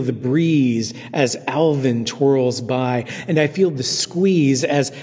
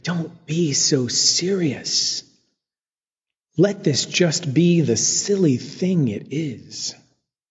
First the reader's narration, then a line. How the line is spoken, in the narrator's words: Divine and Candy and Andy and Hibiscus whispering